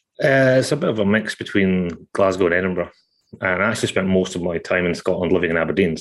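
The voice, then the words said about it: Scottish accent. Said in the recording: “you're a Scotsman, as I think probably everyone can tell already from your first couple of words”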